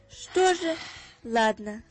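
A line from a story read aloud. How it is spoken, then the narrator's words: Sighing. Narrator (Russian): вздохнула мама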